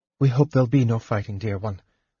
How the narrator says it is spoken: Marita said softly

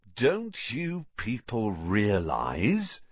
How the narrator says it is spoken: said Lockhart, speaking slowly, as though they were all a bit dim

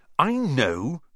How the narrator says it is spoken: Ron snapped

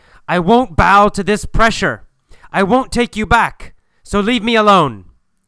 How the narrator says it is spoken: He yells at Julia and says

